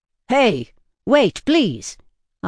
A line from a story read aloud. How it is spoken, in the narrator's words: yelled